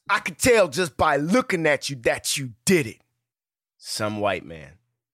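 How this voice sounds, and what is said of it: Impression of Michael B. Jordan. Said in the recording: “Why'd you say it like Michael B? ... I did an impression.”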